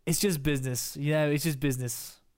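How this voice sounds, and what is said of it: Poor put-on Irish English accent. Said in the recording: “I'll do my Irish English accent. ... That was terrible.”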